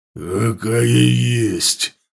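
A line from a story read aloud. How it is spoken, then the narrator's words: Growling. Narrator (Russian): зарычал он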